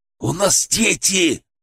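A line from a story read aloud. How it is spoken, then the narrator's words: Hissed. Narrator (Russian): прошипел Александр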